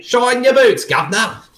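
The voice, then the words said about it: Put-on Cockney accent. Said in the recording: “I'm going to talk with a Cockney accent.”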